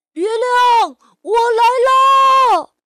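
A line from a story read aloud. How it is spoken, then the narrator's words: Loud shout. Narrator (Chinese): 提莫龙大声喊道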